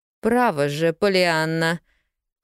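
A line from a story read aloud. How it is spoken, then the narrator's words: Cold strained tone. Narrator (Russian): холодным натянутым тоном начала миссис Кэррио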